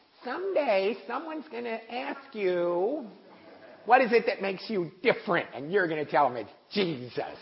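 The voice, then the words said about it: Imitating SNL's Church Lady. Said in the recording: “this is not my mother's voice... I probably can't even do the voice. But you know the church lady from Saturday Night Live?”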